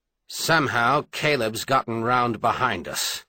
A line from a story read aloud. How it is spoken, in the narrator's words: said harshly